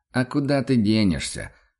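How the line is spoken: Hunter's snort. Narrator (Russian): хмыкнул охотник

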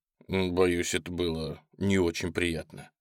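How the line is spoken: Calm male voice. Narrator (Russian): спокойно сказал мужчина

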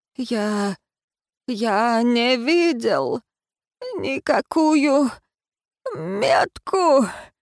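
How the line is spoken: Fading dying rasp. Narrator (Russian): прохрипел Мальен, падая на пол и теряя сознание из-за закипающей крови

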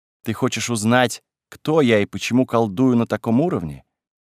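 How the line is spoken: Calm inquiry. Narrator (Russian): поинтересовалась спокойно

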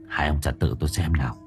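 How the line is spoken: Whispered. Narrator (Vietnamese): cậu thì thầm

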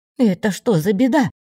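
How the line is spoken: Exclamation. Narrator (Russian): воскликнула Дриада

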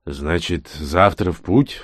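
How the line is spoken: Sigh. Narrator (Russian): вздохнул убийц

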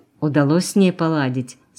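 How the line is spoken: Plain. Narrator (Russian): спросил Сергей

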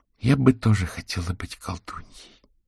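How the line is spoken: Sighing woman. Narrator (Russian): вздохнула сидевшая до этого тихо Вера

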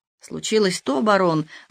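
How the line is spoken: Choked voice. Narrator (Russian): ответил Лошенер удушливым голосом

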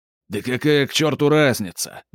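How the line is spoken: Roar. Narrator (Russian): взревел Сильвия

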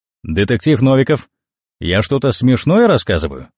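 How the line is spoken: Stern question. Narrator (Russian): строго спросил Штумф

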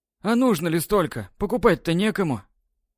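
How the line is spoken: Heavy sigh. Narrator (Russian): Тяжело вздохнув, спросил Севастьянов

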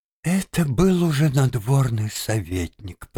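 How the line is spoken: Mutter. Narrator (Russian): пробормотала Вероника

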